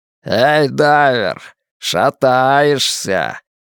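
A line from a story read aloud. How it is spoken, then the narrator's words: Shouted mockingly. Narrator (Russian): насмешливо кричат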